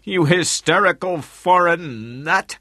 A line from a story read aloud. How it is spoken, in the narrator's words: yelled at her